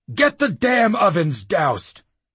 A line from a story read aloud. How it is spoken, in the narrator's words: the Claymaster bellowed at the slops